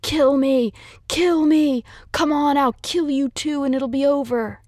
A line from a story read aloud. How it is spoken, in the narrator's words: screaming